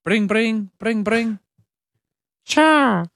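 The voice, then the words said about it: Imitates Charmander Pokemon cry. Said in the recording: “your best Pokemon impression ... That's a Charmander. That's a Charmander.”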